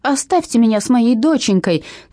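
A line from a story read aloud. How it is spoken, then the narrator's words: Shouting while struggling. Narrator (Russian): кричала мама, отбиваясь и пиная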